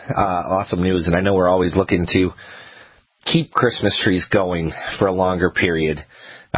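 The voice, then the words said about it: Weak, unwell-sounding voice. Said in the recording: “As you can tell, my voice isn't there today. ... we hope you feel better”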